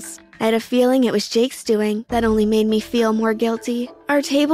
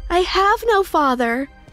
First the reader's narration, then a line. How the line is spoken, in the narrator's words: I yelled